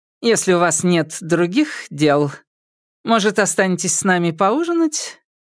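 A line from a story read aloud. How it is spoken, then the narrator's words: Cheerful feigned naivety. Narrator (Russian): сделал вид, что не понял, и радостно ответил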